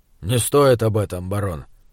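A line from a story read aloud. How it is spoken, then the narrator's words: Grumbling. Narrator (Russian): проворчал он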